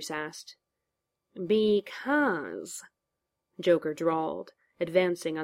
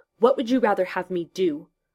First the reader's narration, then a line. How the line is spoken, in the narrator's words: Bruce snapped